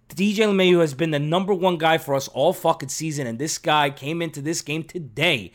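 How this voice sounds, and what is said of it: Strained, hoarse voice from screaming. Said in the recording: “my voice is already starting to get cut off ... I was screaming all fucking night tonight.”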